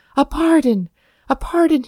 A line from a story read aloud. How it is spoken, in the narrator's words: gasped